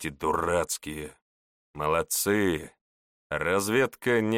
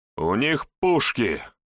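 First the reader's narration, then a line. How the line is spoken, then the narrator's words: Fearless shout. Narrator (Russian): закричал Хоакин бесстрашный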